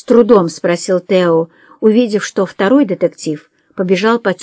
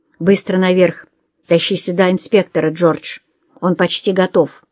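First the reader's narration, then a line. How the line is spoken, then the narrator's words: Quiet order. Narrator (Russian): тихо приказал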